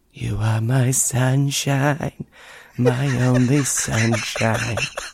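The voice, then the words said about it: Sung, imitates another person's voice. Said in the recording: “singing that in your Trump voice”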